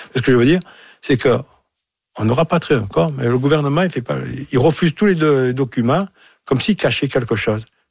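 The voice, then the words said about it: Marseille French accent. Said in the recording (French): “avec mon accent, justement, de Marseille, bien sûr”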